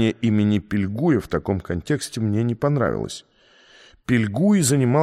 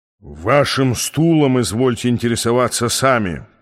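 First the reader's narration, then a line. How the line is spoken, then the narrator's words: Growled. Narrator (Russian): прорычал он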